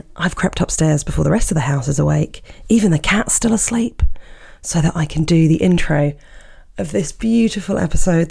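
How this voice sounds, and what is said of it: Slightly croaky voice. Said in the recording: “my voice is a little bit croaky again”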